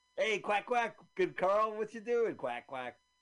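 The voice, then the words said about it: Imitates a duck quacking. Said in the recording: “my duck impression”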